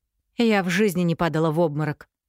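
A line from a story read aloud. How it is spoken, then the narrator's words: Angry reply. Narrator (Russian): сердито отозвалась Эффи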